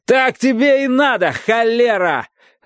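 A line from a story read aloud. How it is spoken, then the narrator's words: Shouting. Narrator (Russian): орал Уолдегрейв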